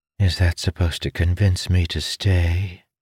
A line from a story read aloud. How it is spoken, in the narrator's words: She asked, her voice like velvet